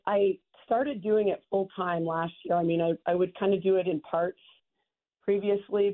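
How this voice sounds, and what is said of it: Cracky, worn-out voice. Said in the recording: “You're going to hear my voice is a little cracky, but I'm kind of recovering from like 30 weeks of an NFL season.”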